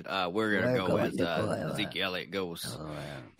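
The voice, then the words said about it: Throat-straining imitation of another person's voice. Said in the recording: “do a better Jerry Jones impression... That ate my throat alive... speak in that voice”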